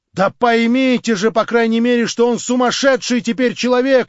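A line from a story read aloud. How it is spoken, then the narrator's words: Shouting with full force. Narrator (Russian): кричал изо всей силы Петр Степанович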